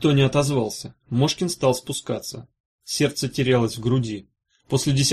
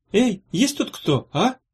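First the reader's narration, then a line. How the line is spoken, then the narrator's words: Timid call. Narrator (Russian): робко окликнул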